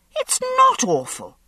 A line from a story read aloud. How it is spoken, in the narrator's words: I snapped